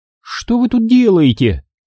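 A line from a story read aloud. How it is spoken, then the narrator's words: Exclaimed. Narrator (Russian): воскликнула Астри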